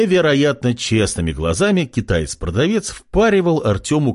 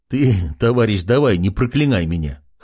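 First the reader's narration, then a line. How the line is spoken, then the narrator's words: Young man laughing. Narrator (Russian): хохотнул парень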